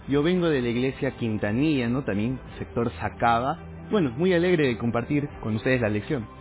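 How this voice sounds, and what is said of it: Spanish accent different from Bolivian. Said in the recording (Spanish): “te escucho con un acento ahí, un poco diferente, de aquí de Bolivia”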